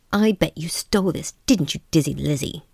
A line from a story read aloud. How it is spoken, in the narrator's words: accused Sonia with a sneer